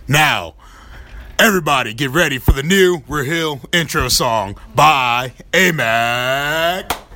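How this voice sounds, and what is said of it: Deep announcer-style radio voice. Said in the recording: “you got a great radio voice”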